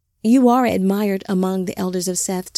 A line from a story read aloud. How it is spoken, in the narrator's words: Tafara said